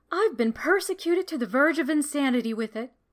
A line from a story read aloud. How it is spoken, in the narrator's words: she said